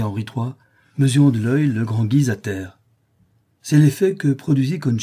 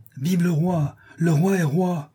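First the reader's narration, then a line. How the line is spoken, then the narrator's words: Shouting. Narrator (French): criant au meurtrier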